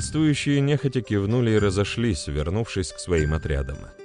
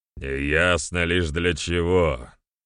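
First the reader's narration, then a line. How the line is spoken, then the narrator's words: Booming drone, chief. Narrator (Russian): прогудел третий вождь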